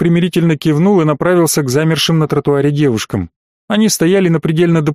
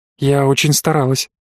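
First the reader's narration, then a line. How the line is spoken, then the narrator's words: Whisper in ear. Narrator (Russian): прошептала она мне в ухо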